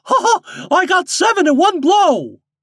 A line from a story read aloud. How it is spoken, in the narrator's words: shouting